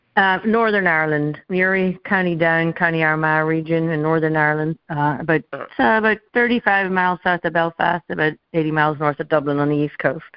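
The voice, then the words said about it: Irish brogue. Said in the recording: “I think they'll pick up on the brogue right away.”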